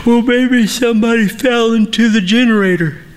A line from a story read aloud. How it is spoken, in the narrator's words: Eric stifles a yawn as he answers